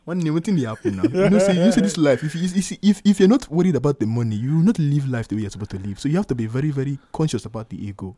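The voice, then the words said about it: Put-on Igbo accent. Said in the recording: “I try to do like Igbo”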